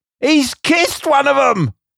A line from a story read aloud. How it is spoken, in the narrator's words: exclaimed the delighted little man